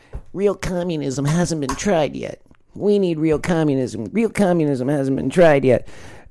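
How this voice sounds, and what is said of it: Mocking communist caricature voice. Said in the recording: “I want to do my communist voice.”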